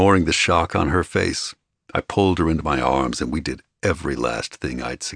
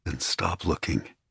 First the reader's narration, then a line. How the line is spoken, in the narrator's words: I whispered